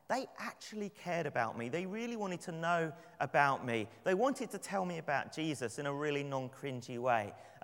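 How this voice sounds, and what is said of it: London English accent. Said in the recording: “my accent ... Gee, we love your accent. Where are you from? ... London. Is that London, England?”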